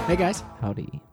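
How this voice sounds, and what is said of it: Put-on character voice. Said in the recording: “This is my new character voice.”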